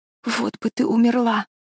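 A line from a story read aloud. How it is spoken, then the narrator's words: Whispering. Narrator (Russian): шептала Мэриголд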